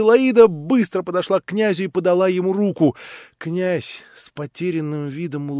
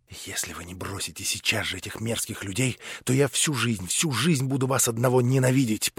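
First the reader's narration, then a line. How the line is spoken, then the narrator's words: Whisper. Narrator (Russian): прошептала Аглая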